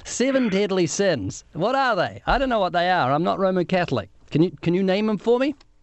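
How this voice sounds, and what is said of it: New Zealand accent. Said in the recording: “you're gonna have to put up with a strange accent, okay? Because he's from New Zealand ... Do your best with the accent.”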